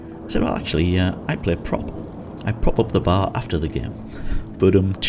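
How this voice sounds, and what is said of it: Usual voice. Nothing is said of it.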